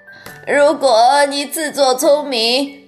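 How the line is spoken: Croaking old woman. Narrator (Chinese): 乔治的姥姥呱呱的叫

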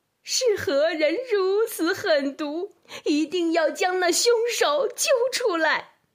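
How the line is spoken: Alarmed cry. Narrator (Chinese): 一个太监惊叫起来

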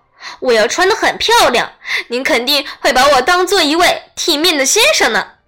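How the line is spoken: Laughing. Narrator (Chinese): 他笑着往下说

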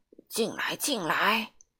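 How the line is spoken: Breathless, panting. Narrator (Chinese): 圆胖医生就气喘吁吁地说

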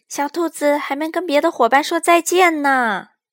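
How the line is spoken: Shout. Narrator (Chinese): 他喊道

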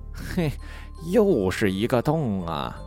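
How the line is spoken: Exclaiming. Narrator (Chinese): 猴子感叹

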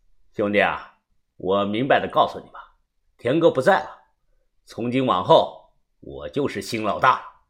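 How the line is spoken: Cold, flat voice. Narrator (Chinese): 小五冷声淡淡的说道

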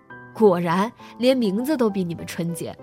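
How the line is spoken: Laughing. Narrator (Chinese): 我笑道

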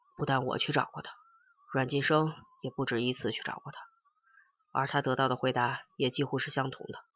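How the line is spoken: Sighing. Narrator (Chinese): 陈诚叹了一口气，继续说

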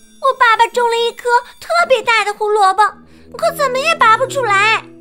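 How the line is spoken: Little rabbit shouting. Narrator (Chinese): 小兔子喊道

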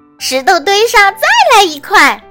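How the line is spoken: Excited joyful shout. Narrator (Chinese): 丽丝兴高采烈地喊

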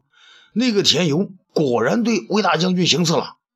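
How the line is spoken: Cry. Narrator (Chinese): 新裤子叫道

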